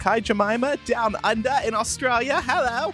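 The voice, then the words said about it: Bad put-on Australian accent. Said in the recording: “That's a terrible accent”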